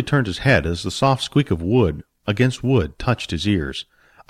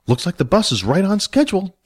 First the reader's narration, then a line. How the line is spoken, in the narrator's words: Jack said happily